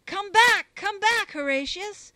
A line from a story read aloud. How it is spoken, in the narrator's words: loud cried the fathers all